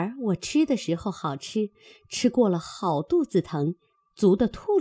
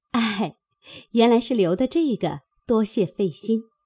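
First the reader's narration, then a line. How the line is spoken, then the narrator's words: Hurried, laughing. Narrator (Chinese): 袭人便忙笑道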